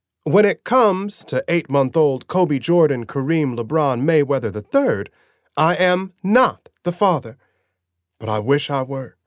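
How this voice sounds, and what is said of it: Sensationalist talk show host voice. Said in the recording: “in my best impersonation of a sensationalist afternoon talk show host”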